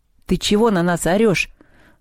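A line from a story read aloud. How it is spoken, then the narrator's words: Barking shout. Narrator (Russian): рявкнул он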